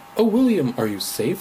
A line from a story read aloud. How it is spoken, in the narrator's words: she cried